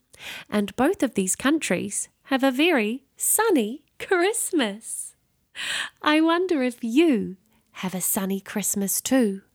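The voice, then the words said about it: New Zealand accent. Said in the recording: “I have an accent. I come from a country called New Zealand”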